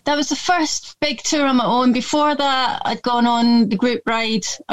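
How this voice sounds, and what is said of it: Slight Scottish accent. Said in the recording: “it's a bit Scottish sounding, because I am a bit Scottish”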